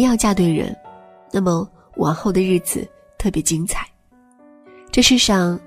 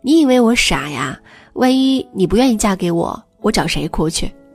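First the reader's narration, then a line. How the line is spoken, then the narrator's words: Chuckling. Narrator (Chinese): 老公嘿嘿笑了两下说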